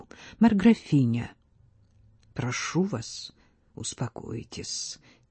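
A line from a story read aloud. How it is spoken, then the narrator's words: Said quietly. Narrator (Russian): тихо сказал он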